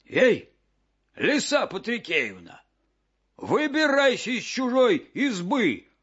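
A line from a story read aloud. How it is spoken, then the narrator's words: Wolf shouting. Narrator (Russian): закричал волк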